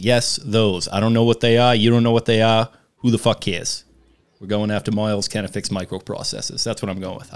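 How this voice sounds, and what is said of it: Imitates another person's voice, good accent. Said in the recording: “That's a pretty good accent. ... Good accent.”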